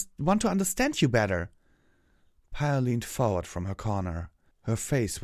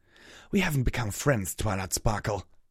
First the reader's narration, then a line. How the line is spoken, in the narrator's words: hissed